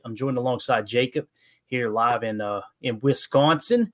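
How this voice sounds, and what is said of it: Accidentally Australian-sounding accent. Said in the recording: “I don't know why that sounded Australian or something.”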